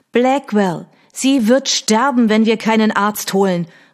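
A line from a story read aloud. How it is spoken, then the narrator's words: Agitated shout. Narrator (German): rief sie aufgebracht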